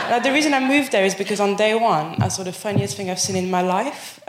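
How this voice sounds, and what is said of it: French accent. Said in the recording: “I'll acknowledge the accent. I'm from Paris”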